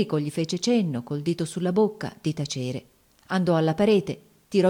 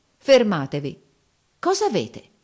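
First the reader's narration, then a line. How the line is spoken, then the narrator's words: Exclaiming. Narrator (Italian): esclamò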